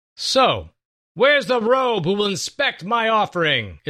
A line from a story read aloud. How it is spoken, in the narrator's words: Issachar hollered up